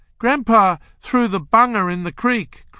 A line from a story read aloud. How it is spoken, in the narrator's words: cried Ronnie